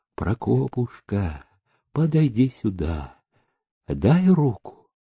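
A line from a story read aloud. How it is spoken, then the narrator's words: Pleading whisper. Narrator (Russian): умоляюще прошептала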